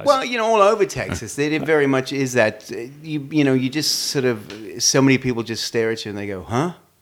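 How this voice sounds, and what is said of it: Australian accent. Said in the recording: “Obviously, because listen to his accent. ... Originally from Australia. ... Did you get a lot of flack for your accent?”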